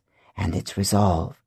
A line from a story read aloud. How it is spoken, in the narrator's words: Takalu whispered